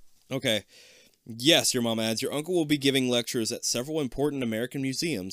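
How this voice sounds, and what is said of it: Usual voice. Nothing is said of it.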